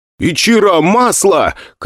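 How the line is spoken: Shouted. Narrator (Russian): крикнул я

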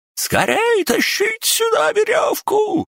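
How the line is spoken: Man squealing. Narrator (Russian): продолжал визжать мужчина

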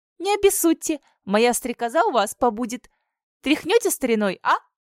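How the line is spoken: Nervous giggle. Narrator (Russian): Она нервно хихикнула

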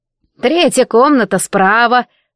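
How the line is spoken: Creaky old voice. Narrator (Russian): проскрипела вахтерша

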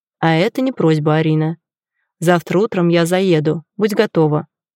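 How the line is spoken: Dry, curt. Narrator (Russian): сухо бросает он

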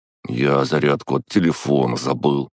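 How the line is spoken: Grumbled. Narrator (Russian): пробурчал

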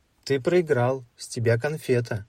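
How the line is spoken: Laughing speech. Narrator (Russian): Зеленый засмеялся и сказал

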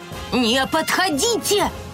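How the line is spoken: Screaming. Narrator (Russian): завопила она

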